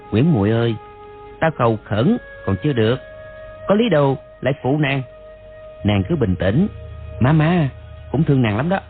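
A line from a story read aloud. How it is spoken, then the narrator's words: Soft, infatuated. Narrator (Vietnamese): Đoàn Dự lòng chàng càng thêm mê mẩn, khẽ bảo nàng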